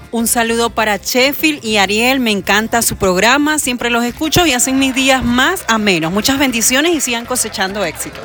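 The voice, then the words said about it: Polished radio announcer voice. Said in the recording (Spanish): “ella tiene voz de locutora”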